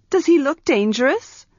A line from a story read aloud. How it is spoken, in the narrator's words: Arha scoffed